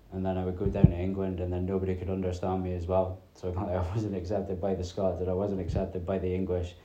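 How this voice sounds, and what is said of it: Unusual Scottish-English accent, dropped T's. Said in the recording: “Just had this weird accent going on. I've been asked a few times if I'm from Shetland ... I don't pronounce my T's”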